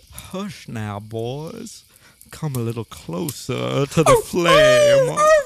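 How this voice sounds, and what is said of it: Talking wolf with country drawl. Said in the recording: “That wolf is talking... In like a country drawl!”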